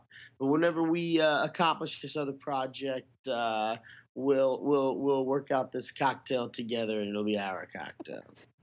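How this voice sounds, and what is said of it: Exaggerated East Texan accent, authoritative. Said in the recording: “turned up the East Texan accent just like little bit more ... He was very like provocative ... he's very authoritative too”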